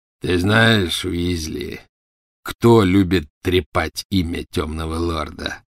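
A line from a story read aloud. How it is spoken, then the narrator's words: Growled. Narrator (Russian): прорычал Фенрир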